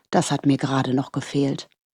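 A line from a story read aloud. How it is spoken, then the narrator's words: Muttered. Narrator (German): murmelte er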